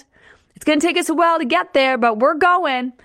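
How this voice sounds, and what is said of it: Weird put-on Southern accent. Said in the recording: “why did I say that with a weird accent, like Southern accent?”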